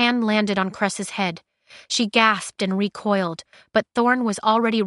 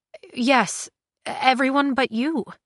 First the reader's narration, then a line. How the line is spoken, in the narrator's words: she stammered